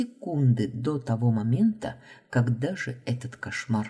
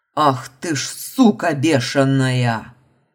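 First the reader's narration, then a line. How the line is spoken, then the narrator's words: Growled. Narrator (Russian): рыкнул Марш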